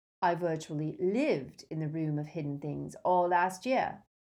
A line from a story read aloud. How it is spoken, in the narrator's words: said Malfoy, his voice brittle